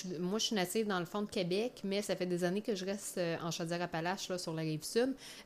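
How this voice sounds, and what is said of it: Quebec French Beauce regional accent. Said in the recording (French): “c'est un accent de la Beauce, un peu ... j'ai vraiment un accent un peu beauceron”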